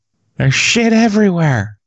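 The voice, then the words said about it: Imitates another person's voice. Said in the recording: “You do pretty good impressions. Can you do a Bob Saget impression?”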